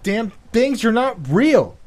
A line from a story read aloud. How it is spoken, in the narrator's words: he shouted at the top of his lungs